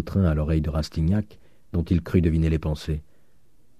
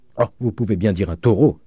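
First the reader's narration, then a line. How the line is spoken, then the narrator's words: Widow exclaiming. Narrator (French): s'écria la veuve Vauquer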